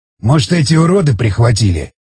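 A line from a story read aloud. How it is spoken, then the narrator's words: Angry growl. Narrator (Russian): Зло прорычал Самохин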